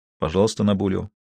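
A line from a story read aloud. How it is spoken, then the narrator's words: Quiet. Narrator (Russian): тихо произнес Коронелли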